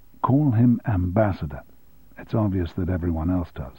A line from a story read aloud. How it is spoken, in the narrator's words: Tom said quietly